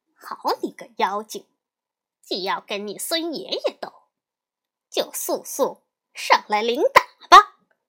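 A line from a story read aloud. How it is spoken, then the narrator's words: Laughing. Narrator (Chinese): 悟空笑道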